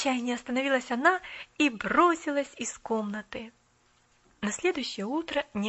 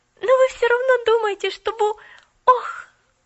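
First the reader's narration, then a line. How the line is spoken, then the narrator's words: Confused, then joyful shout. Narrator (Russian): запуталась, а потом, вдруг радостно закричала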